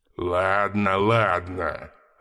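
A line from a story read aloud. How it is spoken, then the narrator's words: Growl. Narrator (Russian): рыкнул Мергеш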